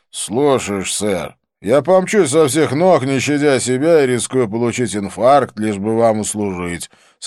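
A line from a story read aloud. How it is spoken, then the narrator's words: Sarcastic grumble. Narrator (Russian): саркастически пробурчал Свити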